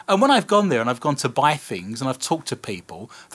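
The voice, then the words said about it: British accent. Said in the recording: “I'm actually British. This is my accent.”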